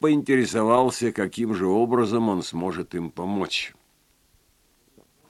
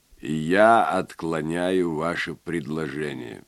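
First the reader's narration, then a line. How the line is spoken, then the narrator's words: Level, even reply. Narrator (Russian): ровным голосом ответил Вульф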